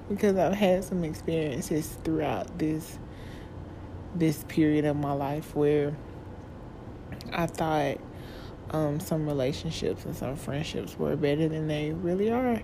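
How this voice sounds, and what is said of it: Shaky, tearful crying voice. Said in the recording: “my voice is shaking because I'm really crying again”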